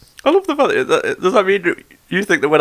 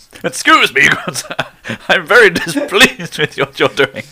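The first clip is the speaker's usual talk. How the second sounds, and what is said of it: Put-on posh, indignant voice. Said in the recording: “A change of accent ... when I get angry, I get posher”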